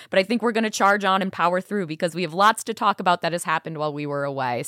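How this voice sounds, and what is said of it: Hoarse, partly lost voice. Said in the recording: “I've lost my voice a little bit for this show”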